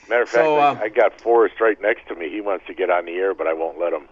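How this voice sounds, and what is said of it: Usual voice. Nothing is said of it.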